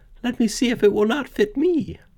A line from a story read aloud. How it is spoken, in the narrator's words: Cinderella said to them laughing